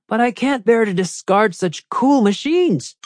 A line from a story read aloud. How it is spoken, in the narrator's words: Rocket said, grinning cheerfully